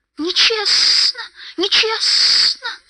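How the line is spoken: Hissing. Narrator (Russian): зашипел он

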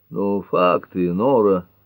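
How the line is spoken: Weary. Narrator (Russian): устало начал Эллери

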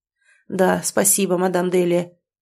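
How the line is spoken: Breathless mutter. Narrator (Russian): тяжело дыша пробормотал мужчина

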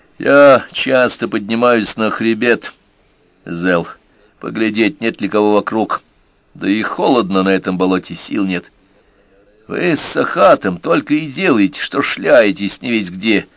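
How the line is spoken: Grumbling. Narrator (Russian): заворчал Зел

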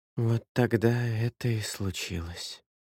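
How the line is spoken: Quiet. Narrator (Russian): тихо сказала миссис Ротман

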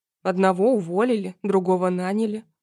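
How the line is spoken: Wry snort. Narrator (Russian): хмыкнул

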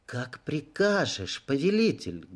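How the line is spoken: Muffled reply. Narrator (Russian): глухо отозвалась жрица

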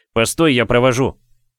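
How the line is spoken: Shouted after someone. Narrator (Russian): крикнул Максим вдогонку

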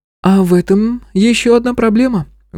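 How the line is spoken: Sigh. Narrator (Russian): вздохнула Марианна

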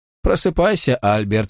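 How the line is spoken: Cheerful. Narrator (Russian): весело произнес доктор

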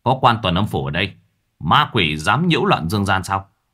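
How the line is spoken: Shouting. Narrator (Vietnamese): Miệng nó quát

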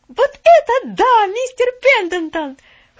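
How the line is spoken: Shouted. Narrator (Russian): закричала

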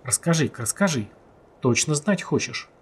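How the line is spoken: Serious quiet question. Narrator (Russian): Уже серьезно и почему-то тихо спросил Ян

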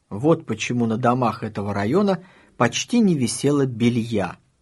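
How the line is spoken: Plain. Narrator (Russian): сказала Таня

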